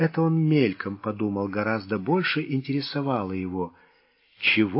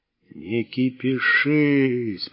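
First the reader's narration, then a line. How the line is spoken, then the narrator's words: Drawled. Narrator (Russian): протянул басмач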